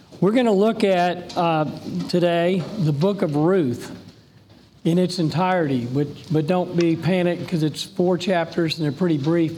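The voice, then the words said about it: Raspy, hoarse voice. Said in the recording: “raspy ... I lost my voice”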